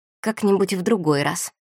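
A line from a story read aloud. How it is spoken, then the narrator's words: Muttered. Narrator (Russian): она пробормотала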